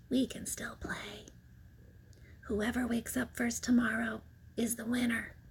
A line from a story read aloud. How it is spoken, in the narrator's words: Betsy whispered